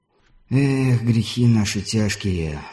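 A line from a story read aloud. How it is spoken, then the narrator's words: Inward sigh. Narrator (Russian): вздохнул про себя Виктор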